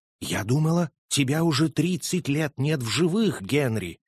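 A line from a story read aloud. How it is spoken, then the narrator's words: Trembling voice, female. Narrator (Russian): Нэнси произнесла дрожащим голосом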